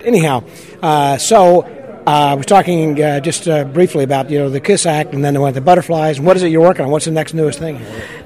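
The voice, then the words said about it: Strained, fading voice. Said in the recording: “my voice is starting to go over here. I think the allergies are just starting to get into my throat a little bit.”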